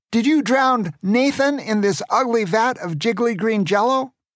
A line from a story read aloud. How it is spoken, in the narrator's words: Grandpa shouted at Pierre Grande